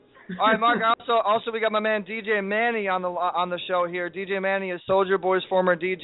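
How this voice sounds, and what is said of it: Usual voice. Nothing is said of it.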